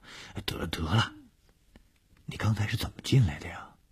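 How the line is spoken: Soft quiet voice. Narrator (Chinese): 小梅感到面颊被他蹭得痒痒的，就小声地说

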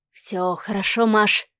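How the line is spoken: Whisper. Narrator (Russian): прошептал Адмиралов

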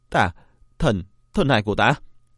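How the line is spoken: Anguished wail. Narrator (Vietnamese): Thiên Nguyệt kêu lên thảm thiết

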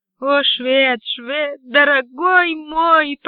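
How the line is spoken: Moaned. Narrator (Russian): простонала

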